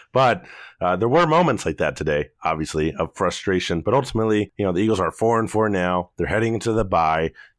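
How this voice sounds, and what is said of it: Hoarse voice. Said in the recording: “my voice isn't good... my voice is hoarse”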